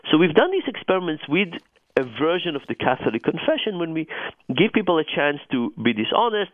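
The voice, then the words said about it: Noticeable non-native accent. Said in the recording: “you can hear from my accent, I'm not Catholic”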